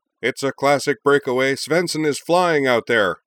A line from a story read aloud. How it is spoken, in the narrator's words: The play-by-play man, the venerable and still wondrously excitable Professor Jim Everard, cried